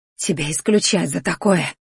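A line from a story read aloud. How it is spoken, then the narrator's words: Wheezing. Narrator (Russian): захрипела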